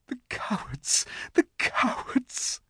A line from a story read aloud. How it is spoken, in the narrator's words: sobbed Susan